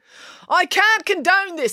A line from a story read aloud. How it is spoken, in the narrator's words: yelled Constable Pike